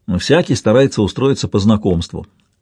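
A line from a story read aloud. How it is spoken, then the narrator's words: Plain. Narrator (Russian): сказал Бертран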